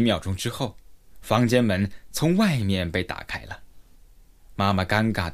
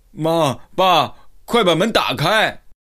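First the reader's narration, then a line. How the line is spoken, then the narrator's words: Loud shout. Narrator (Chinese): 他大声喊道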